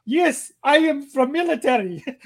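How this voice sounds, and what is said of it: Imitated Russian accent. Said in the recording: “he had a Russian accent too”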